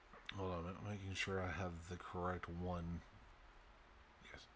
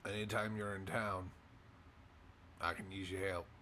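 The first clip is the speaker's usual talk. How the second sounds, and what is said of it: Gruff character voice, weak accent. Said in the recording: “Man, I'm horrible at accents. ... That's why I just said gruff.”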